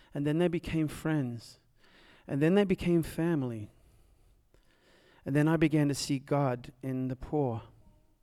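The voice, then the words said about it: Unusual accent. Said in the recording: “this guy with a funny accent”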